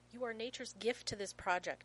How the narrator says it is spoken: he snaps

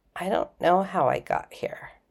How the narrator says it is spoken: McKay whispered

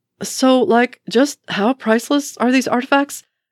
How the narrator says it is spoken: Asks Scott breathlessly

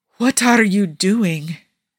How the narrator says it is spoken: Niccolo wanted to moan at the dismal way the Arabic toppled from his tongue

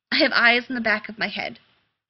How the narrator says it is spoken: he snapped

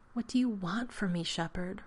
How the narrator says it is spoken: Rodney whispered somewhere near John's left ear

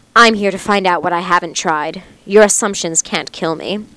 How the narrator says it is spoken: His voice thick, he said

